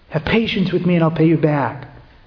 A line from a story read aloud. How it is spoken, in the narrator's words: his fellow slave fell down and pleaded with him